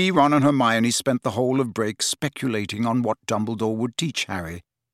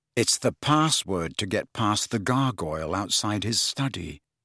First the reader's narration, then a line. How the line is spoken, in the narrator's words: said Harry in a low voice